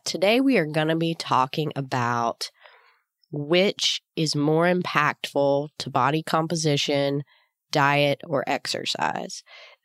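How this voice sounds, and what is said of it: Deep voice from a cold. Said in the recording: “I have the deep voice today. I am getting over a little cold”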